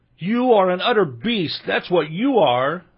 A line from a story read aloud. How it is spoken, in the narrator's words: said Ilinka, miserably sobbing